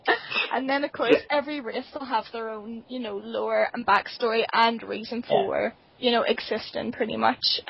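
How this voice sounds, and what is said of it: Belfast accent. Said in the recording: “the Belfast accent”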